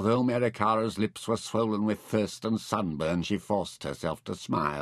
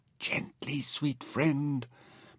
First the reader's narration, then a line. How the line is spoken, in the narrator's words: Mintaken whispered